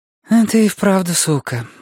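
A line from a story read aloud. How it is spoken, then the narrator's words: Sighing. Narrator (Russian): вздохнула Каролина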